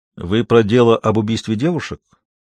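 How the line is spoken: Calm clarifying question. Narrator (Russian): спокойно уточнил

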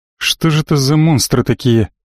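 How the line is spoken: Mutter under breath. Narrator (Russian): пробормотал себе под нос

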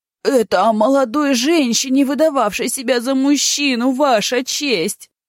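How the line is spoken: Howling. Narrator (Russian): взвыл старшина

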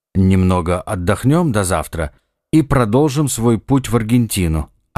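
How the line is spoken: Plain. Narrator (Russian): ответил Ихтиандр

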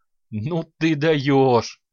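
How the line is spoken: Forced out through laughter. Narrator (Russian): сквозь смех выдавила Тария, гимнастка

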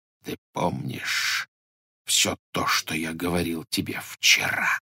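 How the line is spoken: Barely audible question. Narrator (Russian): спросил колдун так тихо, что едва можно было расслушать

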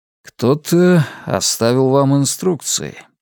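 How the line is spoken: Mutter. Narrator (Russian): пробормотал Роланд

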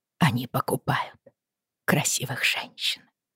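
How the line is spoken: Whisper. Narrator (Russian): прошептала Бриана

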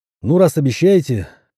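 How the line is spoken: Wry snort. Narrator (Russian): хмыкнул я

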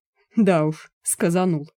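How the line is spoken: Shocked snort. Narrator (Russian): фыркнул шокированный Януш

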